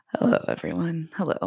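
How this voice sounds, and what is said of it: Speaks with vocal fry. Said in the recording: “this is getting a little Coin Dextery there. Coin Dexter has a vocal fry.”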